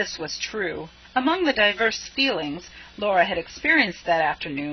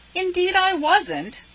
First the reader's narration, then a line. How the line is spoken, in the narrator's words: said Laura indignantly